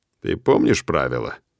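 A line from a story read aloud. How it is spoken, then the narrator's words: Dry question. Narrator (Russian): Сухо спрашиваю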